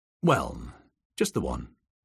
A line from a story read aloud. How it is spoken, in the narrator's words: Harry Hole answered